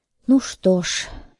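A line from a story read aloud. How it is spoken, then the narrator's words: Sighing. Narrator (Russian): вздохнул я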